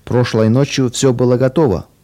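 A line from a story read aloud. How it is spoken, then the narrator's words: Grumbled. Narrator (Russian): проворчал Месик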